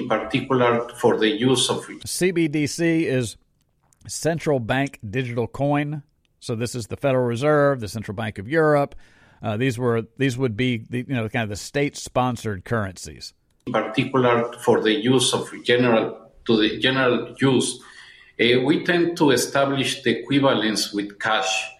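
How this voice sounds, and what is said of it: Thick foreign accent. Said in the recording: “He's got a pretty thick accent”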